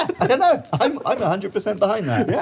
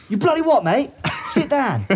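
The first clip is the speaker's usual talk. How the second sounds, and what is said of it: Put-on Cockney accent. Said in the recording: “Cockney accent ... I'm now dropping all my H's and my T's. I'm turning all my TH's into F's.”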